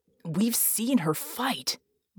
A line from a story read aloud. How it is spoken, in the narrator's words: Red hissed